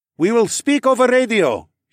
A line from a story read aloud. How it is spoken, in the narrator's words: he shouted